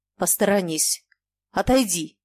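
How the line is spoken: Muffled angry voice. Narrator (Russian): Яков Тарасович сказал глухим и сердитым голосом

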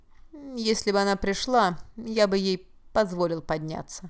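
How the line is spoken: Gloomy reply. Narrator (Russian): мрачно ответил он

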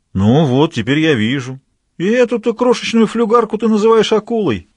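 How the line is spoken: Uncertain question. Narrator (Russian): неуверенно спросил Граляр

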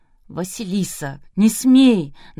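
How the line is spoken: Old man's trembling voice. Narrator (Russian): дрожащим голосом произнес пожилой дядька

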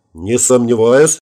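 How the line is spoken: Amused snort. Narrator (Russian): хмыкнул я

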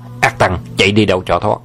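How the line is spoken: Loud shout. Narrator (Vietnamese): Vương Trùng Dương quát to

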